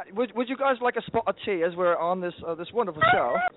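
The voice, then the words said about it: Put-on British accent. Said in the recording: “It sounds more authentic if you say it in a British ... You have to practice your British accent.”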